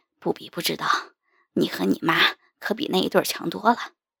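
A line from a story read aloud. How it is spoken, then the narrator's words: Agitated panting reply. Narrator (Chinese): 张哥明显受了刺激，喘息着答道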